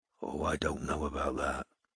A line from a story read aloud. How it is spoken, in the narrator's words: muttered Strike